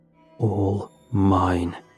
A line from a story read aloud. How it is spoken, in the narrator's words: it muttered